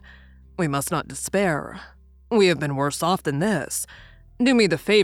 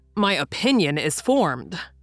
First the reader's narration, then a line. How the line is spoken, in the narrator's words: replied Ned Land sharply